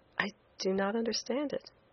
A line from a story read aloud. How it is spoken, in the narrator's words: I said quietly, too proud to show my ignorance on a subject of vital importance to my own well-doing